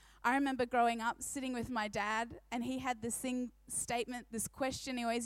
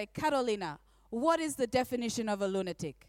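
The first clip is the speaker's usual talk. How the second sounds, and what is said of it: Put-on Polish accent. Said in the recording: “Can I do it in your accent? ... I'll do my best, hey? Authentic, okay. He's Polish.”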